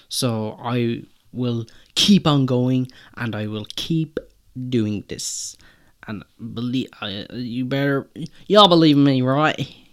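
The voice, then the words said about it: Put-on accent. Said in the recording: “I don't know why I'm doing an accent”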